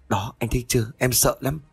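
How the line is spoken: Startled, trembling voice. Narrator (Vietnamese): Tiên giật mình, giọng run rẩy

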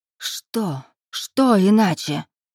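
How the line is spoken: Hissed. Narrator (Russian): прошипела Ольга

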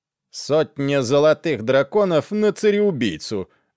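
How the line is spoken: Loud announcement. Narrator (Russian): объявил громко мизинец

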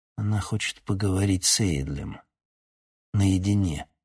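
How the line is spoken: Grim. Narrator (Russian): мрачно сказал

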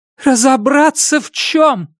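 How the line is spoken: Mother shouting. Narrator (Russian): выкрикнула мама

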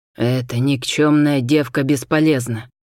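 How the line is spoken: Angry growl. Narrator (Russian): зарычал Дашал Хасис

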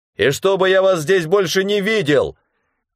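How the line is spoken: Shouted after them. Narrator (Russian): крикнул я им вслед

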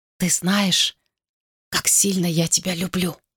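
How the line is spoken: Whisper. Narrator (Russian): прошептал он

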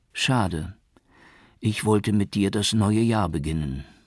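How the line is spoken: Sad. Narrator (German): sagte sie traurig

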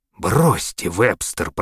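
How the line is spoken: Hoarse rasp. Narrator (Russian): прохрипел он

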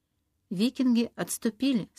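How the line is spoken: Plain. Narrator (Russian): сказал Колум

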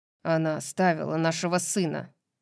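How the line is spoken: Threatening growl. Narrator (Russian): прорычал Рандал с нехарактерной угрозой

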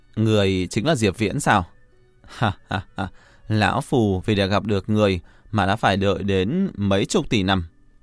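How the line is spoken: Old man, smiling. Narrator (Vietnamese): lão già ở bên cạnh nàng mỉm cười nói

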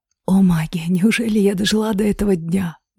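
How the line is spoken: Whisper. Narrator (Russian): шепот императрицы

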